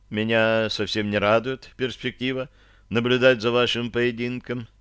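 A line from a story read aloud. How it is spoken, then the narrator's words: Heavy sigh. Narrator (Russian): тяжело вздохнула Таша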